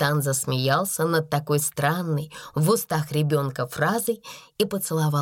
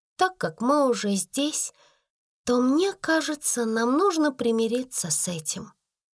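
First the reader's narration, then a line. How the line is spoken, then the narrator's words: Soft gentle speech. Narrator (Russian): мягко проговорила Сара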